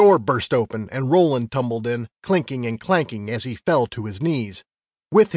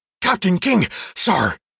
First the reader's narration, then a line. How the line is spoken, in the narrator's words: He panted hard